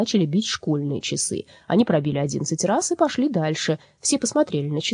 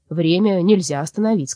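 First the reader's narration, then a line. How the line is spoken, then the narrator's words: Plain. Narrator (Russian): сказал дядя Вася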